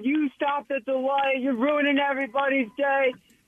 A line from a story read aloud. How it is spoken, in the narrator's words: the guy's yelling at him